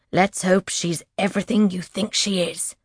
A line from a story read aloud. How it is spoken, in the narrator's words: Syl growls